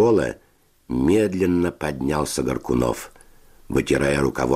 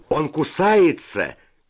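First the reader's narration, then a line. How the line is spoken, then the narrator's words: Shout. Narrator (Russian): крикнул кто-то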